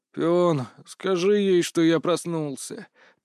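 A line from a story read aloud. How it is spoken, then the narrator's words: Sleepy grumble. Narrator (Russian): пробурчал я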